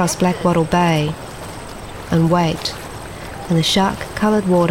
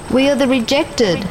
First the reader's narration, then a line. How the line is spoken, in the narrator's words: We shout